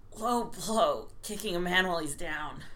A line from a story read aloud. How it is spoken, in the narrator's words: he grunted